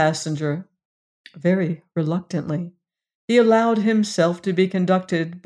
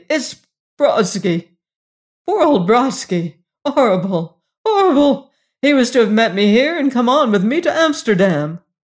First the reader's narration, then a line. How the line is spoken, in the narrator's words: he exclaimed breathlessly